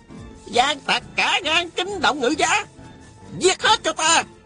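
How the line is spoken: Shouting. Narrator (Vietnamese): Tào Quá Thuần la lên

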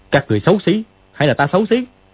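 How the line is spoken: Shout from behind mask. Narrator (Vietnamese): Dương Quá đeo cái mặt nạ vào quát

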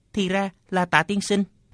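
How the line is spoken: Trembling, terrified voice. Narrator (Vietnamese): Thạch Trung Ngọc khiếp sợ, chỉ run rẩy nói

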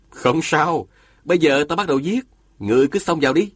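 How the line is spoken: Smiling speech. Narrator (Vietnamese): Diên Thừa Chí mỉm cười, nói

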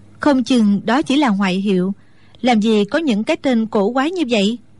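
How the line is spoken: Smiling. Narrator (Vietnamese): Mẫn Nhu chỉ mỉm cười rồi nói

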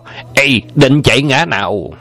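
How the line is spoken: Loud shout in unison. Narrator (Vietnamese): Anh em song quái thấy Châu Bá Thông chạy trốn, đồng quát to

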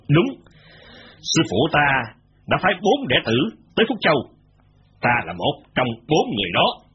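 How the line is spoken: Cold laugh then speech. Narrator (Vietnamese): Gã kia lạnh lùng cười khanh khách một lúc rồi mới nói

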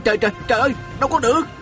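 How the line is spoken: Exclaiming. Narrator (Vietnamese): Viên Thừa Chí la lên

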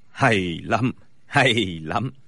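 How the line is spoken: Smiling, approving. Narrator (Vietnamese): Bối Hải Thạch mỉm cười gật đầu nói

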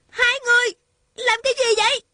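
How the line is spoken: Angry shout. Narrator (Vietnamese): Thanh Thanh giận dữ hét lên

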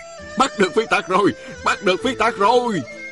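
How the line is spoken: Crowd cheering. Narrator (Vietnamese): một đám bồ khoái ... không ngớt reo hò

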